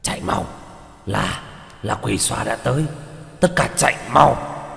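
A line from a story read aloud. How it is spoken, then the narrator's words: Panicked hurried shout. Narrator (Vietnamese): Con quỷ mặc khôi giáp kia khuôn mặt đại biến, vội vàng hét lên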